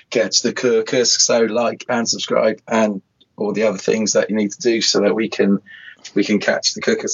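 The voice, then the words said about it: Hoarse, strained voice. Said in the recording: “I can barely talk ... this dodgy throat”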